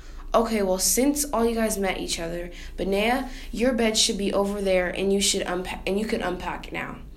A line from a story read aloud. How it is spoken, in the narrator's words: Deer said